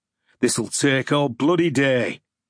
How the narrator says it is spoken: he grumbled

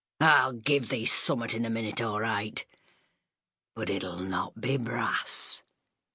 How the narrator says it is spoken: he'd snarl

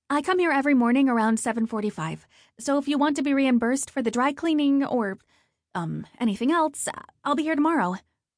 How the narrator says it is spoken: she uttered as quickly as she could

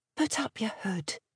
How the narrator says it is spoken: she whispered

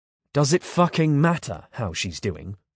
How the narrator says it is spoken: I snapped

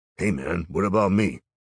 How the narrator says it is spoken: The zombie grunts

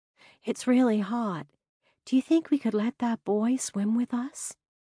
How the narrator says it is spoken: I whispered

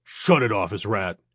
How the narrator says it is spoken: he barked

